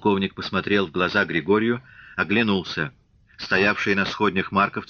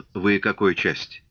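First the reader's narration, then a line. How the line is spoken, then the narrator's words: Tired question. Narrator (Russian): полковник устало спросил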